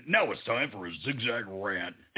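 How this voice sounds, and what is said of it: Goofy hardcore announcer voice. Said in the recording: “a goofy voice ... it's like a hardcore voice”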